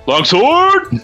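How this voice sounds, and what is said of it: Imitates another person's voice. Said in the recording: “my best Ralric impression”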